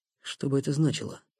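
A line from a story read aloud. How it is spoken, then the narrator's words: Muttered. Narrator (Russian): пробормотал Никита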